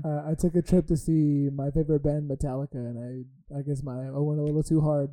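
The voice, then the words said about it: Hoarse, worn-out raspy voice. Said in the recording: “Doc Rivers going right there ... My voice is a little gone from the weekend.”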